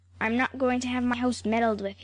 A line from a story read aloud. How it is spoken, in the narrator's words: he snapped